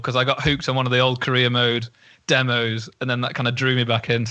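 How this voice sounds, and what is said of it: Stoke-on-Trent English accent. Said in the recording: “your accent came right through there with hooked ... that's Stoke. That's full on Stoke. Well spotted from the hooked.”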